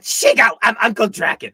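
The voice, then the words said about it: Poor imitation of cartoon villain voice. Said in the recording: “that was the worst John DiMaggio dragon impression in the world”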